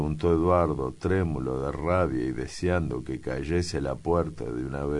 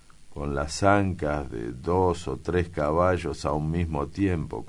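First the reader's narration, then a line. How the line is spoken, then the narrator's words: Plain. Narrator (Spanish): contestó Pedro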